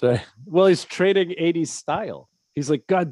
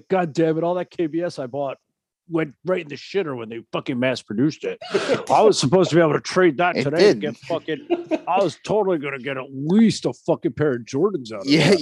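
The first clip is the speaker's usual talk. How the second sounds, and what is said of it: Impression of Alex Kidd. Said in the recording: “your Alex Kidd impersonation of Alex Kidd”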